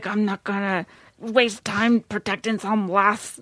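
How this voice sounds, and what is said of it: Put-on Scottish accent. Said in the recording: “That was my wonderful Scottish accent.”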